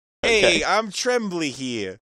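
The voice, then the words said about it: New York accent rat character. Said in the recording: “Can they all have like New York accents? ... give me a quick sample of what like, Tommy the Rat”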